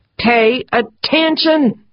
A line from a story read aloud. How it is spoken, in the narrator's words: she screamed at herself